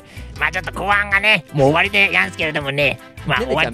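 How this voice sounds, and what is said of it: Comic villain character voice. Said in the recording (Japanese): “モノマネお願いします。... アカンガネの怪人、サビル兵。”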